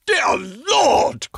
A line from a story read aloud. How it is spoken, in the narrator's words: cried the banker